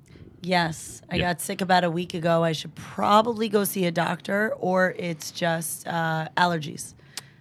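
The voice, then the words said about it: Unusually raspy voice. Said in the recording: “We want to hear that the rasp in your voice... your voice is unusually raspy today”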